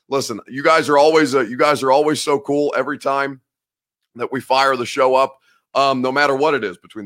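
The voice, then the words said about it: Worn-out, rough voice. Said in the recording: “my voice sounds a little cashed already so early in the week... hoping that it'll get it a little better once it warms up”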